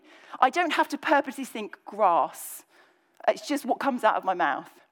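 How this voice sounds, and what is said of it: Slight Cockney English accent. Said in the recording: “I'm slightly Cockney ... I grew up in the kind of southeast of England, just kind of under London. And that's how everyone spoke. I absorbed that accent”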